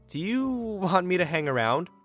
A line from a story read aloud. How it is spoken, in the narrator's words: she asks nervously